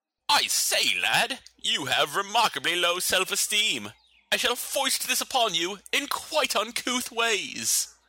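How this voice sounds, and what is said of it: Put-on posh British accent. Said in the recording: “it's kind of hard to hate that accent ... that accent”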